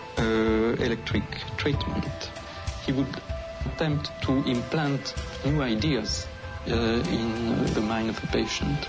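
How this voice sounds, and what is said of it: Strong German accent. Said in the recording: “He sounds really German.”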